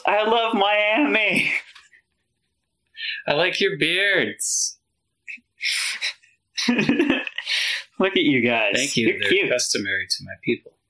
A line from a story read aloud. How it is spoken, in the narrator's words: someone just like yells